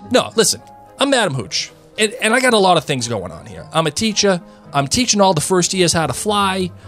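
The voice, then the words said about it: Put-on New York accent. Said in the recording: “Does Madam Hooch have like a New York accent? ... She does.”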